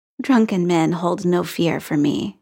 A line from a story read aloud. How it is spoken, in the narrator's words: she said, her voice full of humor